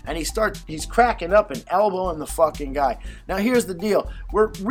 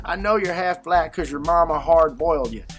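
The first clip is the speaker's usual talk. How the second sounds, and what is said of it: Put-on Southern American accent. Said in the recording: “he's telling me with this southern accent”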